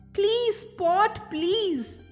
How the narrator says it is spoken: cried Maisie's mother

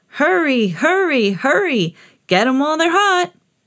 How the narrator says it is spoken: He was shouting

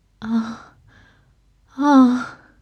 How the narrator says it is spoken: Aziraphale gasped

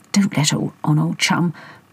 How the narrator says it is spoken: Potty whispered to Hector

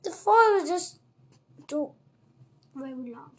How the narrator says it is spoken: she mumbled

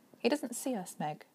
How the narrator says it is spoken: Calvin said gently

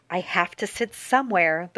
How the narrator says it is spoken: the girl said to Tina in a firm, calm voice

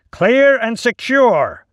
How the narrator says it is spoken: the officer shouted again

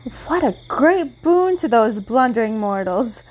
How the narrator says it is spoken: cried the queen

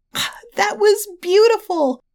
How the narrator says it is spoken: she squeaked with excitement

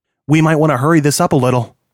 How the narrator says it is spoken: John said

